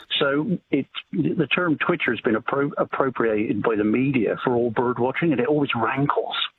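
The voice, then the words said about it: Non-Australian accent. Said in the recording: “You'll be able to tell from my accent that I'm hardly authentically Australian”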